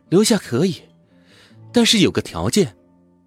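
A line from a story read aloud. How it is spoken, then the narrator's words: Sighing landlady. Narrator (Chinese): 老板娘叹了口气说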